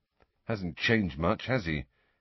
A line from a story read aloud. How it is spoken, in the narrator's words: Harry muttered to Ginny